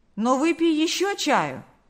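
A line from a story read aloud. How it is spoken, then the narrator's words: Exclaiming. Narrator (Russian): воскликнул Карп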